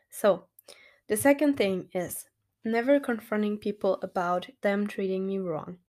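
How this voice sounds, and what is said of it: Rusty, slightly hoarse voice. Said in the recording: “I'm still coughing from time to time. My voice is still a little rusty because I was sick last week”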